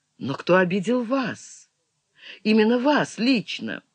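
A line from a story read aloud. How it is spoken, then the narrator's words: Quiet question. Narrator (Russian): Тивиса тихо спросила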